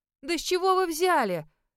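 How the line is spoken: Offended exclamation. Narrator (Russian): с обидой воскликнула я

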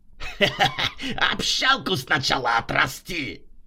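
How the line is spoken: Loud laughter. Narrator (Russian): захохотал Рутюнян

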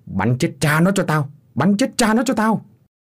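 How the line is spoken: Furious screaming. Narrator (Vietnamese): Tức mình, lão biểu thét lên

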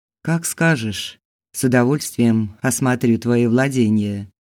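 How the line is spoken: Calm. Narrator (Russian): Сергей спокойно произнес

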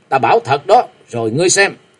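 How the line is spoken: Stern. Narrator (Vietnamese): Châu Thanh nghiêm giọng

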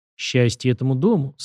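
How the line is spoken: Deep chest voice. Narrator (Russian): сказала она глубоким грудным голосом

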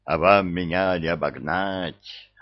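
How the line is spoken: Joyful roar, three voices. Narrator (Russian): радостно взревел Горыныч всеми 3 головами

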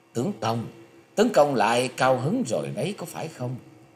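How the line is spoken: Charming smiling voice. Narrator (Vietnamese): Tần Quyển Linh mỉm cười duyên dáng nói

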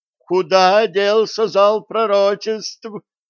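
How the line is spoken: Shriek. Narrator (Russian): завизжала Сальен

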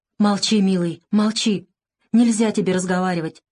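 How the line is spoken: Tearful. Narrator (Russian): Сквозь слезы говорила Варя

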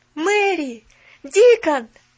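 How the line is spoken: Shouting. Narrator (Russian): закричал Колин

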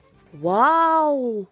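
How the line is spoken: Joyful horror. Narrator (Russian): радостно ужаснулась Милли

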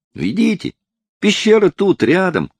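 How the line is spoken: Shout. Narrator (Russian): кричал

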